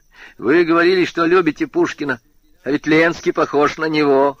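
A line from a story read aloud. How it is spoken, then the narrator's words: Rude tone. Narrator (Russian): хамским тоном сказал Женька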